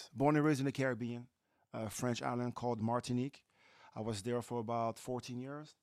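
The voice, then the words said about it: Non-American accent. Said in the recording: “the accent, you're not American born”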